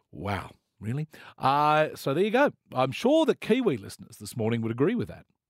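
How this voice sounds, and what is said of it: Usual voice. Nothing is said of it.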